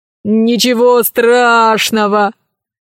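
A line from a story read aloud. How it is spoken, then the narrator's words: Laughing. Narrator (Russian): рассмеялся Милодар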